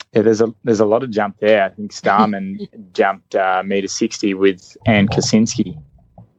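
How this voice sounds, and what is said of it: Strong accent. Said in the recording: “Got to whip out the accent extra strong, huh?”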